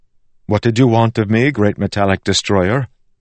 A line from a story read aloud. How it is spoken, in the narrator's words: Wax sighed